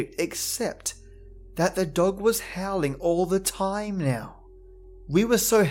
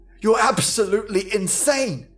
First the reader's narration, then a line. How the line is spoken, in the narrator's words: Jason shouted